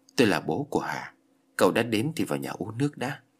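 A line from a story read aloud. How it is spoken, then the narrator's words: Sad, sighing man. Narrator (Vietnamese): Người đàn ông đó có vẻ mặt buồn bã, thở dài rồi nói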